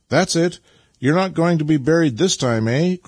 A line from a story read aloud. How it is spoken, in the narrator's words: cried Nikita encouragingly